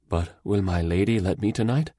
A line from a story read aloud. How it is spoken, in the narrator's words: hung her head and faltered